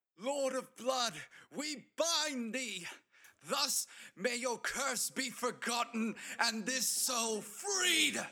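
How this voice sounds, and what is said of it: Loud yelling, voice cracking. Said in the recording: “I belt this. ... Louder than I've ever yelled anything, to the point where my voice is cracking. ... With every ounce of energy I have.”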